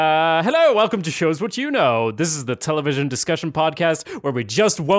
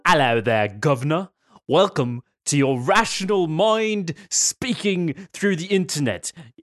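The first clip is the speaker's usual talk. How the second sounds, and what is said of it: Put-on British accent. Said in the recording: “We've all needed our British side to come out ... I think I have a British accent otherwise, so maybe I should stop doing that.”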